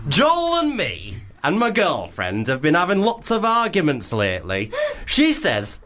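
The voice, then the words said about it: Put-on Leeds accent, maybe unconvincing. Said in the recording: “should we do a Leeds accent? ... So I'm sorry if it doesn't sound Leeds. Maybe it'd be Hull.”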